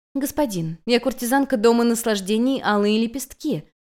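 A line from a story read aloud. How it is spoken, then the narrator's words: Soft soothing voice. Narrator (Russian): мягким успокаивающим голосом произнесла Юнь-Юнь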